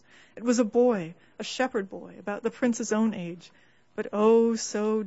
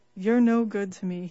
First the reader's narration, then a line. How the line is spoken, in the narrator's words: he said, patting them mournfully